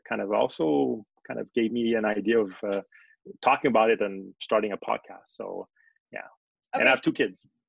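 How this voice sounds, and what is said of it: French Canadian accent. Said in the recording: “I'm from Montreal, Canada. So that explains my accent. I'm part of the French population of Canada.”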